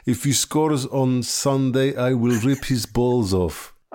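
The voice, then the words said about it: Bad put-on Ukrainian accent. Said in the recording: “My awful Ukrainian accent”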